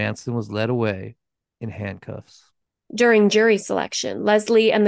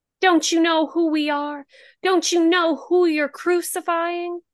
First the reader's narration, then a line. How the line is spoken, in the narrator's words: utterly devoted, who once wanted to be a nun and viewed Manson as Jesus returned to earth, screamed